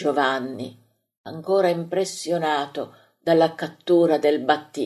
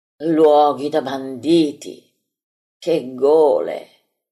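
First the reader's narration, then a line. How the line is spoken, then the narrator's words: Many voices exclaiming. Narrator (Italian): esclamano in molti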